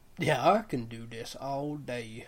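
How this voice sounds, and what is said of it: Wild West cowboy accent. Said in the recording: “my Wild West accents”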